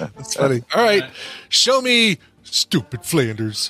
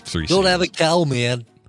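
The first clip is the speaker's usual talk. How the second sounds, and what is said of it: Impression of a cartoon character. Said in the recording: “It's my Pee Wee Simpson doing his impersonation of Bart Simpson.”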